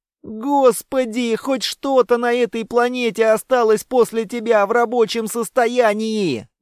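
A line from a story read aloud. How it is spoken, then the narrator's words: Yelled. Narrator (Russian): завопил Мерзкий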